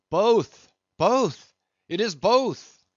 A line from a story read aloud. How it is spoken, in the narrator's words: cried Daggoo again with a joyful shout